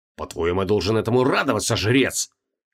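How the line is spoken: Hiss. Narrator (Russian): прошипел Креол

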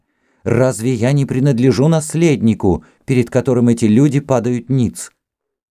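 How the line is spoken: Shouting to a crowd. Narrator (Russian): крикнула толпе

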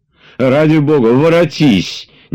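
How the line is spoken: Crying out in tears. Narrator (Russian): не голосом, а слезами кричал он

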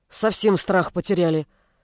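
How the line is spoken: Grumbling. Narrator (Russian): ворчал сменщик сбежавшего полуэльфа

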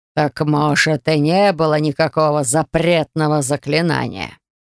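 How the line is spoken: Hissed. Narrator (Russian): прошипел лорд Теор

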